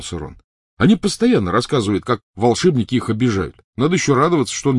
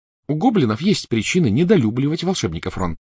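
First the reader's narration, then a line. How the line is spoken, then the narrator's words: Plain. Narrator (Russian): сказала Гермиона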